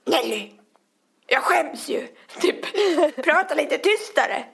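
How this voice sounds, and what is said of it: Imitates another person's regional dialect. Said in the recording (Swedish): “härma honom, hans dialekt”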